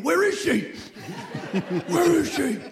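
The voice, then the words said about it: Christian Bale Batman impression. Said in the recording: “his Christian Bale impression from The Dark Knight is on point... my Christian Bale impression”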